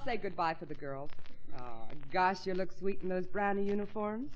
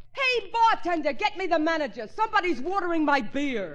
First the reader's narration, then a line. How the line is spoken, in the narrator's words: yelled